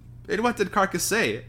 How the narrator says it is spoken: asked Harry eagerly

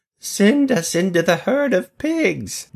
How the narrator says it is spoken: the demons begged him

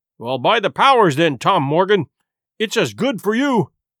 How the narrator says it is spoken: exclaimed the landlord

